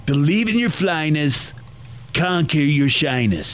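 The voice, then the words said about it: Bad Donald Trump impression. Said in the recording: “doing a Trump, like a bad Trump impersonation.”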